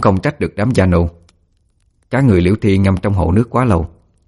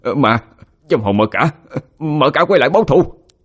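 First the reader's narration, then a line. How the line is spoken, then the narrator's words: Frightened screaming. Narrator (Vietnamese): Thấy mặt cô thì đứa nào đứa nấy đều sợ hãi mà hét lên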